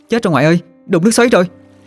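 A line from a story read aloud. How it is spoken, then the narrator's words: Alarmed shout. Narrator (Vietnamese): Hương la lên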